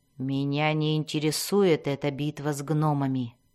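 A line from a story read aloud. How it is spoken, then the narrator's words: Grumbling. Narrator (Russian): проворчала Мелис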